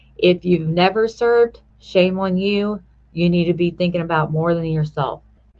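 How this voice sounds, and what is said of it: Stern scolding mom voice. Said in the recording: “that's the mom voice coming out. So if I scare anybody, don't be afraid.”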